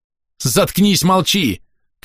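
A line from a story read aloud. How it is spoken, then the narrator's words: Frightened shout. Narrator (Russian): крикнул я на нее скорее с испугу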